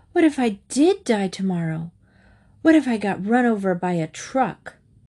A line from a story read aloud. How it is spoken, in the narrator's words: With an exasperated sigh, Mrs